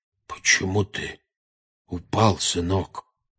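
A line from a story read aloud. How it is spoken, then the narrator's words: Unnaturally quiet question. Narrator (Russian): спросил дядя Вернон неестественно тихим голосом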